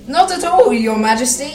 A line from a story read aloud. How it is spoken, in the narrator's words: said